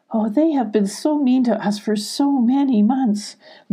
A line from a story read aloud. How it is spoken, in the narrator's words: Lucy cried, tears of relief falling from her nose